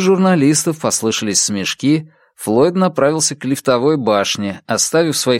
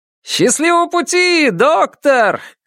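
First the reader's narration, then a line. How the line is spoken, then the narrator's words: Shouted. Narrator (Russian): крикнул кто-то из них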